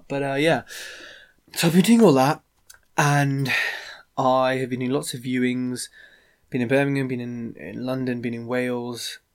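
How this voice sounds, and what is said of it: Rough, ill-sounding voice. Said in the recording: “I'm ill... my voice is terrible... I sound a bit, a bit like Phoebe from Friends when she was singing Smelly Cat”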